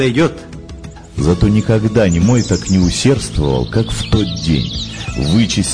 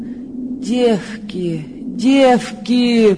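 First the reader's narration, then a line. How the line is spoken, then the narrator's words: Moaning. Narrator (Russian): простонала она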